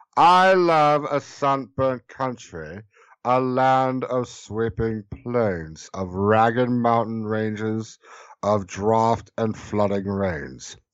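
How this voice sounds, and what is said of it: Slow, deliberate imitation of another's voice. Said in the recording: “bad impression ... It's slow and deliberate. It takes forever.”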